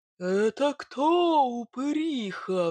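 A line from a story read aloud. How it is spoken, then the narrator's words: Roared. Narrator (Russian): взревел Илья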